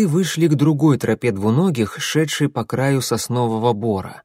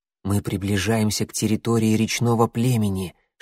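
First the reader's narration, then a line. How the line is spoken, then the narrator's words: Whisper. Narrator (Russian): шепнул клубок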